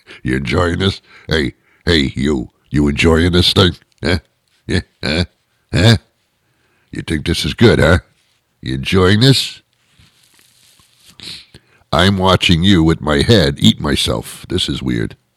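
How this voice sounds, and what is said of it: Imitating a talking fish. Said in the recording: “This is what the fish is saying. That's my impression of a fish.”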